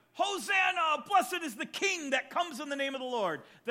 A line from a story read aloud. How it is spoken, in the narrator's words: they're shouting